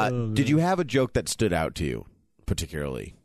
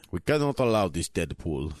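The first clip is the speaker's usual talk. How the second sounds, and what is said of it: Russian accent imitating Colossus. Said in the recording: “It's my Russian accent, my Colossus accent. ... Not bad.”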